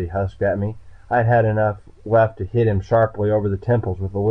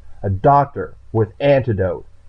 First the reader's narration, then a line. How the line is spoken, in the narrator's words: I snapped